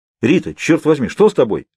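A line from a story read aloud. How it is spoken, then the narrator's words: Alarmed exclamation. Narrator (Russian): воскликнул я, решив, что в нее выстрелили или пырнули ножом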